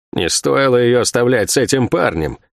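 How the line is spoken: Grumbling. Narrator (Russian): проворчала Сойка

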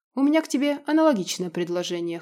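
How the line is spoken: Wry snort. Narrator (Russian): хмыкнул Иль

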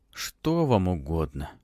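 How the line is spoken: Sleepy question. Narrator (Russian): сонно спросил мессир

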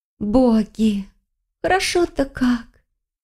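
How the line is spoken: Blissful sigh. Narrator (Russian): Келлеер блаженно вздохнула

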